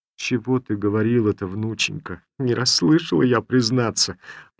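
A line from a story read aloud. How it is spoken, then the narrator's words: Old woman mumbling. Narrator (Russian): прошамкала старуха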